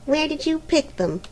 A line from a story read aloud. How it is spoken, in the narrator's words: asked Helena sulkily